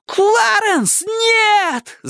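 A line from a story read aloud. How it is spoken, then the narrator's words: Yelled. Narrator (Russian): завопил Майки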